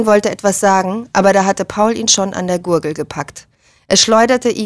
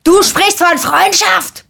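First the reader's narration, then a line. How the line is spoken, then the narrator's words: Bellowed. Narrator (German): brüllte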